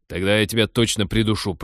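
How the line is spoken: Annoyed growl. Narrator (Russian): прорычал пилот, представив, что очередь удлинится еще на одного человека

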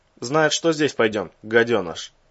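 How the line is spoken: Gruff mutter. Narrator (Russian): буркнул медведь

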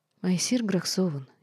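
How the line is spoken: Barely audible reply. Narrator (Russian): едва слышно ответила Лора

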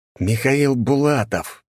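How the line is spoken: Gloating through gritted teeth. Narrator (Russian): проговорил я сквозь зубы, наслаждаясь застывшим ужасом в глазах гвардейца

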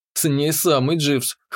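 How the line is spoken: Amused snort. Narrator (Russian): хмыкнул я

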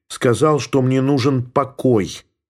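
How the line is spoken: Angry snap. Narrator (Russian): сердито бросила Елена

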